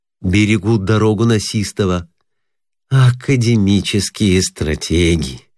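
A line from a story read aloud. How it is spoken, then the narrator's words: Dejected voice. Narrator (Russian): упавшим голосом проговорил ординарец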